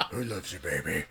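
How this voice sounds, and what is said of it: Deep growly impersonated voice. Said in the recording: “this kind of growly voice ... do a Barry White impersonation”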